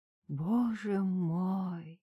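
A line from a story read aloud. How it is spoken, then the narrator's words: Whispered. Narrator (Russian): прошептала Галина Ивановна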